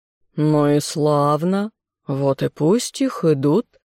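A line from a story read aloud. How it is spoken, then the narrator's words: Cooing dragon. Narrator (Russian): проворковал Змей Горыныч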